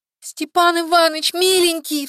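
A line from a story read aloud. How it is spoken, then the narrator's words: Sobbing. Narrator (Russian): всхлипнула она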